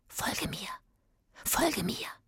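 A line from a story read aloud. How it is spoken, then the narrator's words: Whispering. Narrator (German): flüstert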